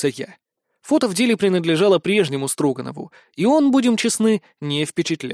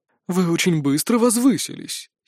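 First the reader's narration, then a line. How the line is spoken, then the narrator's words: Unctuous, syrupy tone. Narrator (Russian): елейным тоном заявил Синераэль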